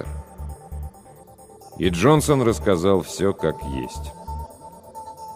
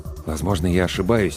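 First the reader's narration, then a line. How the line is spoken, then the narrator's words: Quiet. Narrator (Russian): тихо сказал доктор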